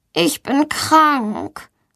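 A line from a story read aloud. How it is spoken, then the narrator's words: Suffering voice. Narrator (German): sagt Valentina mit leidender Stimme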